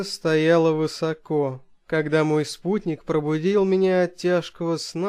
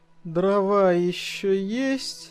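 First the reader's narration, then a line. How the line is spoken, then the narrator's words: Sleepy question. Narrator (Russian): сонно спросил я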